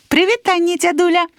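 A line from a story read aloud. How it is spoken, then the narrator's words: Cheerful. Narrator (Belarusian): весела сказала Дашачка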